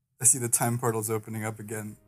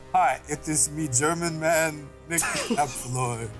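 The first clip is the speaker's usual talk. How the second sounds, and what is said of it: Bad put-on German accent. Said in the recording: “Why did you get, like, such a bad accent?”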